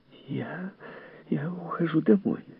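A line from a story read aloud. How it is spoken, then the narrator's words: Trembling voice. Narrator (Russian): дрожащим голосом промолвила миссис Бауэлс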